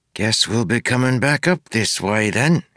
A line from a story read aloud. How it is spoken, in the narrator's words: said with a sigh